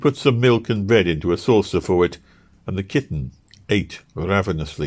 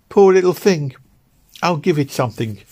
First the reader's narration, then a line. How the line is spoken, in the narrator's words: exclaimed the young woman